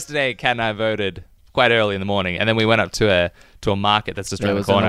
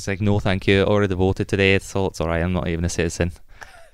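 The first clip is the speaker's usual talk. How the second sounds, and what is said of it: Put-on Scottish accent. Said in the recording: “I went through with a Scottish accent.”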